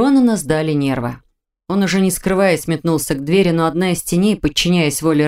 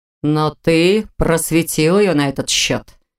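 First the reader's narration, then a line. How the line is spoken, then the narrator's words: Snorting scoff. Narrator (Russian): хмыкнул Рен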